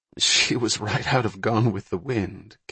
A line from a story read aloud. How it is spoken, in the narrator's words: Kathy said with a chuckle